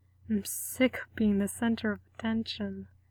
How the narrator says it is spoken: Frank mutters against Gerard's throat

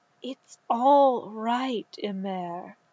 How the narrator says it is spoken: said gently

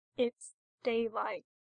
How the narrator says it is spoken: says, still in that same flat voice

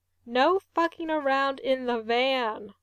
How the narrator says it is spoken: Ray says

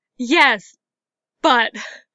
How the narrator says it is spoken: Leia spluttered

